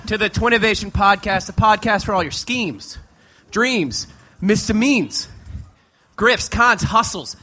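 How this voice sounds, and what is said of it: Out of breath, panting. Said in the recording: “Oh, I'm exhausted. ... We are out of shape. ... I'm out of breath.”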